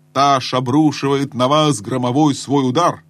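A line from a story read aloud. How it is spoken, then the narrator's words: Grand menacing yell. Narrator (Russian): Ему захотелось, чтобы это выглядело величаво и грозно, завопил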